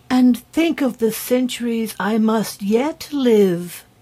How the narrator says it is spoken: exclaimed the fairy in a dismal voice

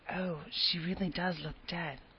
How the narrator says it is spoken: whispered Ruby Gillis nervously

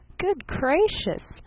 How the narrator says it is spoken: giggled Miss Von Eaton

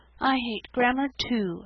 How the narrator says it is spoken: sighed Sarah Ray

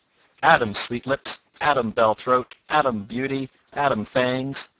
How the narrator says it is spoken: cried the friar

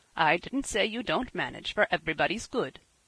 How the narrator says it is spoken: said her father, with a quiet laugh

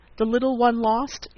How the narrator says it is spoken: he exclaimed

